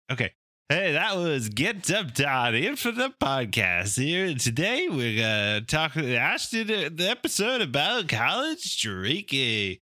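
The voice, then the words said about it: Imitates another person's voice. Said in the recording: “He's turning into Bobcat Goldthwait ... That was my Bobcat.”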